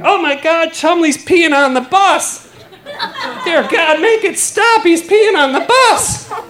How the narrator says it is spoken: literally drunk and drunk on power, and I start screaming

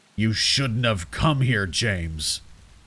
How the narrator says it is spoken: he snarls

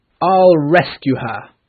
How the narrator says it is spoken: Peter shouted

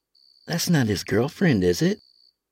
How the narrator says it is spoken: Lawrence chuckled

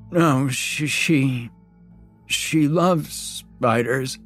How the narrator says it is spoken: he wheezed through a half-broken nose

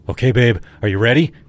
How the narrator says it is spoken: Kyle asked, his tone excited

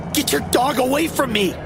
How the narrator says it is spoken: he yelled

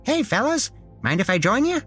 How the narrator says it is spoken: It squeaked at us in a cute, high voice, as if it was in a Saturday morning children's TV show

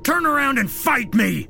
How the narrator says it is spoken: David yelled out with as much bravado as he could muster

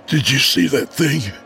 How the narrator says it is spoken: my brother wheezed

